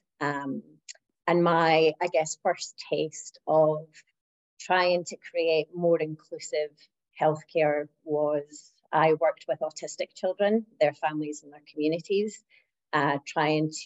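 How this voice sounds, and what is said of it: Non-Australian accent. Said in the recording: “obviously with my accent, you can tell I'm not Australian”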